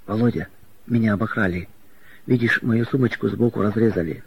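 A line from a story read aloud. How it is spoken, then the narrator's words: Frightened. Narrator (Russian): испуганно сказала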